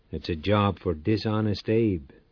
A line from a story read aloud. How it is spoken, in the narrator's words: muttered